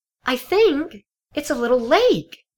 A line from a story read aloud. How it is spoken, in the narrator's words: she squealed excitedly